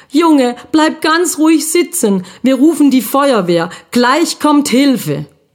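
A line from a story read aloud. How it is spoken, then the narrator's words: Called out. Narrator (German): Er rief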